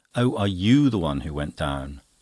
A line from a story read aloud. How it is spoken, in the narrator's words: Farmerson, who immediately said in his loud voice